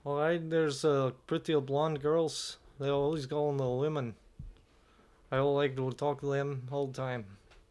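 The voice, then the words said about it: Poor put-on Swedish accent. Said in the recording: “now do a Swedish accent ... I'm really bad at those ones. ... They just sound like Dracula. ... that's the accent that you're bad at. ... They sound Swedish. Like retarded Dracula.”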